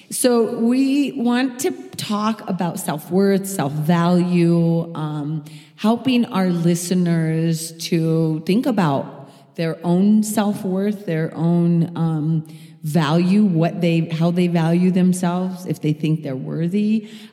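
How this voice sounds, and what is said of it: Southern US accent. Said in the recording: “We all have a little bit of an accent at this table. We all come from down south, and so sometimes self sounds like south.”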